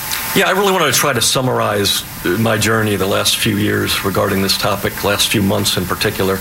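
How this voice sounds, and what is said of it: Voice affected, not normal. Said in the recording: “apologize for my voice. Allergy season has begun here.”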